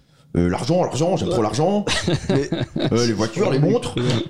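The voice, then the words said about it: Caricatured imitation of a friend's accent. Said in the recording (French): “Prends l'accent de Romain, quand tu fais Romain. ... c'est tellement caricatural.”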